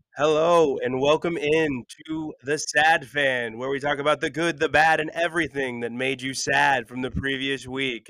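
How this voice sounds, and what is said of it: Sick, slightly off voice. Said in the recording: “you can hear my voice is a little bit off... We all get sick”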